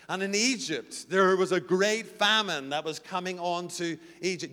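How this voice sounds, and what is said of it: South African accent. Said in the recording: “This is the word I can't say in South Africa. You're finding it difficult enough with my accent.”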